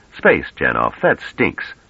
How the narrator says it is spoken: Treviz said irritably

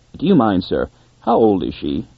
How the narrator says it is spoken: the visitor asked in a strained voice

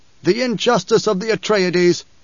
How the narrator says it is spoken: he'd protested loudly

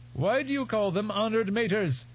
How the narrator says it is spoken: His voice lapsed almost into a screech

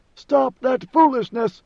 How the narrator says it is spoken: he cried, or thought he cried

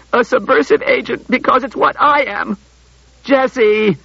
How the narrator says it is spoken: groaned Bailey

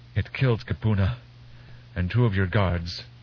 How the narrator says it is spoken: Kenya gasped

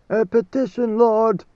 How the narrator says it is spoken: leaders cried

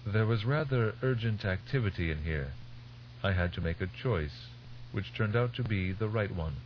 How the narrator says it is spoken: His voice mild, Tegg said

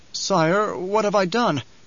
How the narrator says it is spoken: Nefood quavered

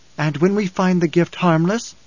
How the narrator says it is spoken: Alia had cried

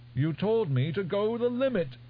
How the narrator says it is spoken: Almost wailing

